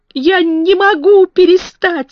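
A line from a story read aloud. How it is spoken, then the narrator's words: Sobbing. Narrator (Russian): всхлипнул он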